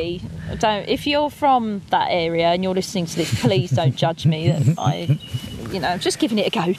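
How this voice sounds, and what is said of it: Usual voice. Nothing is said of it.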